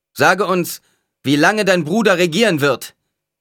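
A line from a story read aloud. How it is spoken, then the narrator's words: Man calling out. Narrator (German): rief ein Mann weiter vorn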